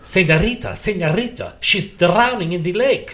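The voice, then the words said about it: Spanish accent with rolled R's. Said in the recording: “I had a brilliant Spanish accent, and I could make the R's.”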